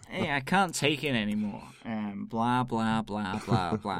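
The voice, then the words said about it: Attempted New York accent. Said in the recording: “a sort of a New York accent”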